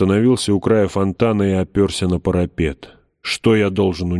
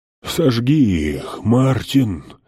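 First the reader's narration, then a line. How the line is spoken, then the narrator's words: Breathless, hoarse wheeze. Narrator (Russian): Задыхаясь, хрипел король Билли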